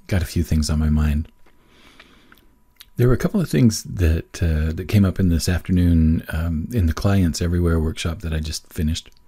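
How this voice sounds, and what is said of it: Rough, slightly weak voice. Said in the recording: “my voice is a little bit on the rough side, maybe a little bit weak”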